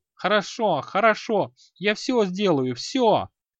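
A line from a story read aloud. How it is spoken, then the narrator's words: Shout. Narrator (Russian): Он крикнул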